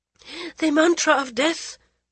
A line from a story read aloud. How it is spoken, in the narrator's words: the Maharani gasped